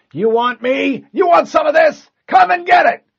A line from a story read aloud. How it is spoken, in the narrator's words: The Marine in the passenger seat yelled